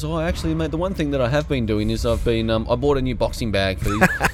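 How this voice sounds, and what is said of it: Imitates another person's voice, accent. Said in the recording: “put on the accent. ... it looked pretty authentic to me.”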